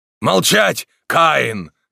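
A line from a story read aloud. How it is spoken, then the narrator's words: Shouted again. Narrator (Russian): крикнул снова Морок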